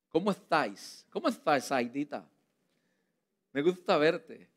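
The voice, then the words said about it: Imitated Spain Spanish accent, lisped z. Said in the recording (Spanish): “eran españoles de esos que hablan con la Z entre la boca ... yo soy muy malo para eso de los acentos”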